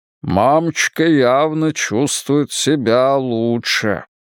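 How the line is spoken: Grumbling. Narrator (Russian): пробурчал Джад

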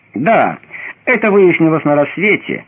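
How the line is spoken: Mocking objection. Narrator (Russian): насмешливо возразил Лаван

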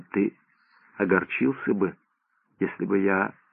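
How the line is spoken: Quiet question. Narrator (Russian): Доктор тихо спросил

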